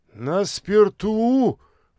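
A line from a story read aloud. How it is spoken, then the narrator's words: Exclaiming. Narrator (Russian): воскликнул тот же Зыгин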